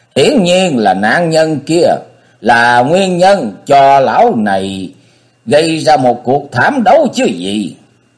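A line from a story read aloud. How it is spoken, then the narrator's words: Sudden roar, furious. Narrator (Vietnamese): Liệt Dương đạo sĩ chợt gầm lên như hổ đói trước những lời lẽ kết tội của nhị vị Khương Trang điện chủ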